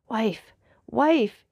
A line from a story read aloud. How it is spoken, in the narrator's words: cried in a hoarse voice